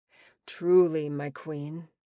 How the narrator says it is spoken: he said, his voice dipping even lower than usual with emotion

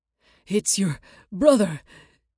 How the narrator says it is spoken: wheezed

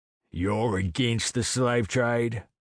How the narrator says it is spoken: I asked carefully

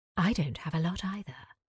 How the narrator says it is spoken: whispered

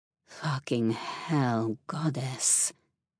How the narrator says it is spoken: he groaned

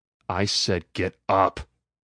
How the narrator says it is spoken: I snarled

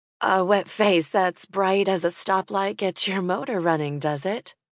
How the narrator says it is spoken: Laughing despite the flutter in her stomach, Kathleen said

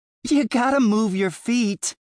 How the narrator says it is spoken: shouted up at me, a tinkling laughter lining every word

